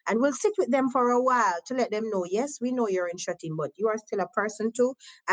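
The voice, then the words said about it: Jamaican accent. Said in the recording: “because of my accent again they're always fascinated where do you come from ... i am from jamaica”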